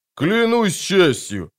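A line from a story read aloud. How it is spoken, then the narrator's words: Barking knight. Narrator (Russian): рявкнул шахматный рыцарь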